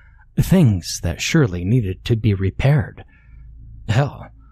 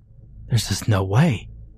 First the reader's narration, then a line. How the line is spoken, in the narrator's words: he breathed, his stomach clenching in fear